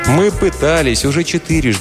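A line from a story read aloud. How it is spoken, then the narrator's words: Plain. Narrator (Russian): ответила Алиса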